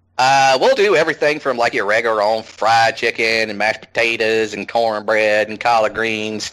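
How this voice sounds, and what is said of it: Strong Southern US accent. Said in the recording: “we Southerners ... my accent suddenly takes, like, a massive spike there”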